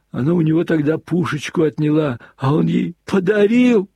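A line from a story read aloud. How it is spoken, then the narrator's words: Sudden loud sobbing. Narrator (Russian): Вдруг в голос прорыдал штабс-капитан при воспоминании о том, как Илюша уступил тогда свою пушечку маме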